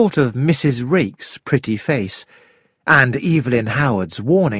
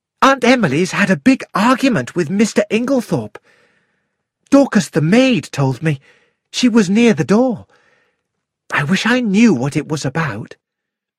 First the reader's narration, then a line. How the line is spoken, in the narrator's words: Cynthia said excitedly